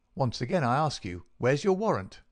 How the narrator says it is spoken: shouted the furious Peters

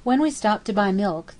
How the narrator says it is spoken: the poor woman exclaimed

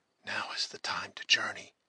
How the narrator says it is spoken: he whispered

